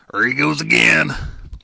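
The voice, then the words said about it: Imitates another person's voice. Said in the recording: “That's my Bill Lack impression.”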